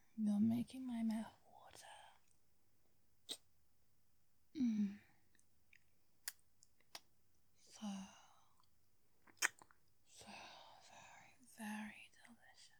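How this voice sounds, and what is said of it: Speaks with a noticeable accent. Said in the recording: “every nuance of my accent”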